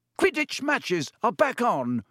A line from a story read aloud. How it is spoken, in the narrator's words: roared Wood excitedly